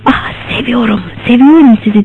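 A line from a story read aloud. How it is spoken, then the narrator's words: Whispering again. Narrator (Turkish): diye bir daha fısıldadı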